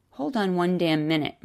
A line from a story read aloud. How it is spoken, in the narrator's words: Maureen snapped